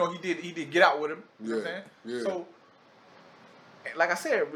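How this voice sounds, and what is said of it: Usual voice. Nothing is said of it.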